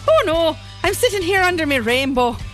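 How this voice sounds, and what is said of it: Put-on Irish accent. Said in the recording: “That's how I do Irish accents.”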